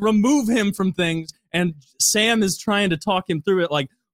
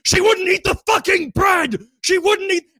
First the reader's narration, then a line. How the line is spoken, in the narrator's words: screaming